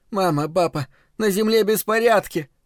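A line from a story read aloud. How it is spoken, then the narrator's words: Sobbing. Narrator (Russian): рыдала она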